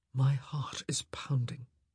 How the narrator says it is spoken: he whispered

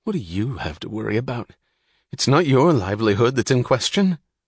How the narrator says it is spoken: Philip muttered

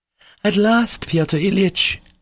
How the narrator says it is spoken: cried Madame Holokov, beaming all over

